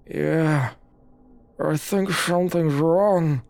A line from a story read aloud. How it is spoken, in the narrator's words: he responded with slurred words